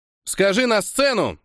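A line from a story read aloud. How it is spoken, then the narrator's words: Shouted. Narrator (Russian): крикнул Костик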